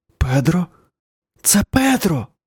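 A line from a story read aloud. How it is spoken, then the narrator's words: Hiss. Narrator (Ukrainian): прошипів Марк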